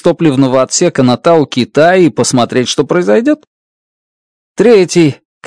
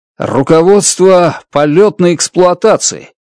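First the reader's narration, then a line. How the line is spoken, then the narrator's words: Loud. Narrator (Russian): громко говорю я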